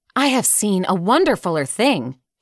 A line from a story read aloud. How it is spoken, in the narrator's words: he cried, as they gathered round him eagerly